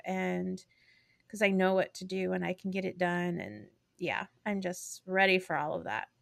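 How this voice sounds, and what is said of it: Tired-sounding voice. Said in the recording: “I'm tired also, just so you all know, if you hear it in my voice.”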